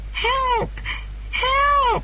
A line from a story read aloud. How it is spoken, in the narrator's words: she cried